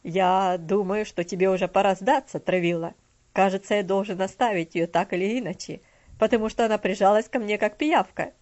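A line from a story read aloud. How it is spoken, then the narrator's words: Hearty laughing. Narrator (Russian): Мистер Динсмор сердечно рассмеялся и сказал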